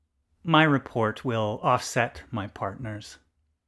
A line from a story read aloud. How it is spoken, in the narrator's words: Eisnik, speaking by voice, said soothingly